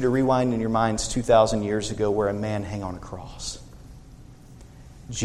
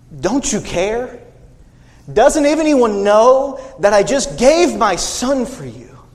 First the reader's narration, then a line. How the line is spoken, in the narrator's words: John screamed in agony